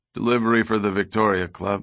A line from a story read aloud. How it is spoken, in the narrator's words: the driver said in a bored voice